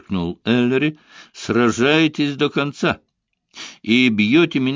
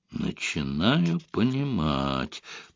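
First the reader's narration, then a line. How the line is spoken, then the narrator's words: Muttering. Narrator (Russian): пробормотал Ярдли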